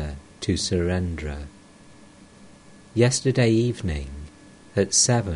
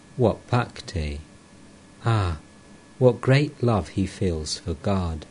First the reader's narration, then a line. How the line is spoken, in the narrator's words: said in a choked voice